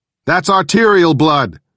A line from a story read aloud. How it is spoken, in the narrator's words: I shouted